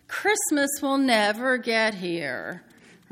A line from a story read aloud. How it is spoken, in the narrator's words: children moan